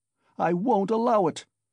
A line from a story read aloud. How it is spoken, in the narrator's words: he shouted